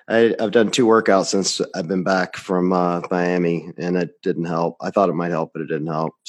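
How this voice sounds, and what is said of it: Odd, sick-sounding voice. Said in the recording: “I still have the weird voice thing going on and a lot of coughing”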